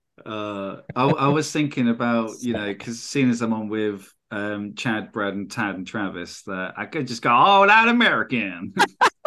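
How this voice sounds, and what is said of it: English accent. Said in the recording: “You don't have to do the accent anymore. We get it. You're from England.”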